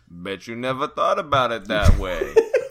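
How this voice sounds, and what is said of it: Put-on Russian accent. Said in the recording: “That was my Russian accent.”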